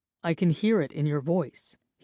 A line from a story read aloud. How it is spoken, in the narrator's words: he said evenly